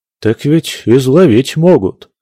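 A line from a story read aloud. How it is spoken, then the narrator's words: Deserter sighing. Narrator (Russian): вздохнул дезертир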